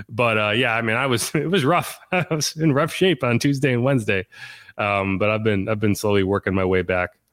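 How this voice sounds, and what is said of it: Voice not fully recovered. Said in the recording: “I'm feeling better now. You can probably hear in my voice. It's not all the way there.”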